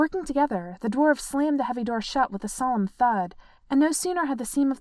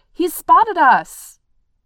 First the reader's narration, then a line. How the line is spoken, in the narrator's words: Bofur shouted